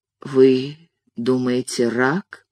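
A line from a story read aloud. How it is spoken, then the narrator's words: Quiet old man's question. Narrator (Russian): тихо спросил старичок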